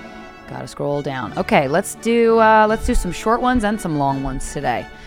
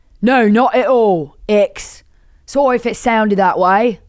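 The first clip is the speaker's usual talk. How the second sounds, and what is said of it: Bad put-on British accent. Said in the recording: “you are about to hear my shit British accent.”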